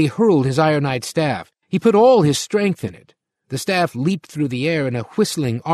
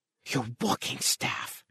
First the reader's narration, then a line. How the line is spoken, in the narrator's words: Green gasped